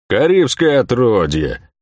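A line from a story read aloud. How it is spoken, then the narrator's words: Grumbling merchant. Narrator (Russian): проворчал купец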